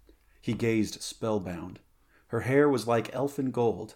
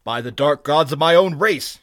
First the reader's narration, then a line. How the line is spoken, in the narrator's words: he cried in anger